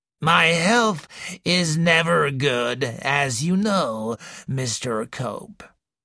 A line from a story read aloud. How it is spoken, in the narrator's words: wheezed the old lady